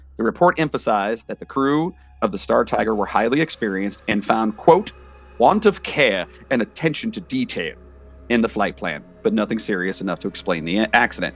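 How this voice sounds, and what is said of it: Reads in a put-on accent. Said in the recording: “I could use that accent for that”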